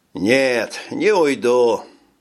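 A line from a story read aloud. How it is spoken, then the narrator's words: Sighed. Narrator (Russian): вздохнул Кроу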